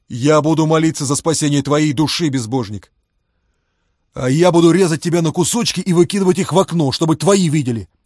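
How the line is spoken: Barked. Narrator (Russian): рявкнул Фома

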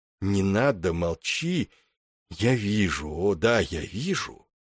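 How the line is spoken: Whisper. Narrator (Russian): шептал, ясновидец

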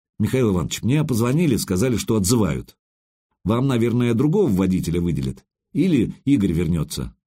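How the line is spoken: Guilty tone. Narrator (Russian): Водитель сказал виноватым тоном

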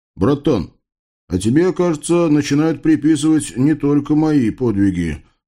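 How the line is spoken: Smirking. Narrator (Russian): хмыкнул Лев

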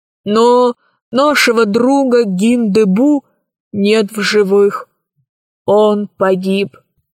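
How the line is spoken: Hollow, muffled voice. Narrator (Russian): произнес он глухим голосом

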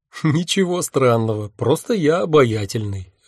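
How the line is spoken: Laughing. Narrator (Russian): рассмеялся я

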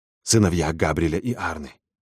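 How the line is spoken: Obsequious whisper in ear. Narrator (Russian): услужливо шепнул в ухо подскочивший опричник

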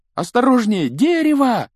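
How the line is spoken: Yell. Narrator (Russian): завопил Гарри

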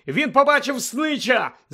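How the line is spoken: Shouting. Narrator (Ukrainian): закричав Гаррі

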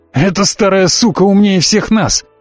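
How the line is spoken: Barked. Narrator (Russian): рявкнул Славик

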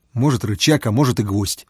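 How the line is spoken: Snapping retort. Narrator (Russian): огрызнулся Фома

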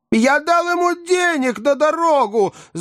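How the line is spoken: Frantic shout. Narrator (Russian): закричал мистер Тапман, вскакивая, как сумасшедший

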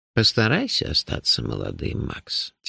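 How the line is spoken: Said quietly. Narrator (Russian): тихо сказал Нуфлин

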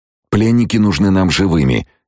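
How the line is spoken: Hissing guard officer. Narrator (Russian): прошипел один из офицеров охраны

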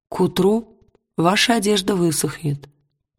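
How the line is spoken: Plain. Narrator (Russian): сказал шаман

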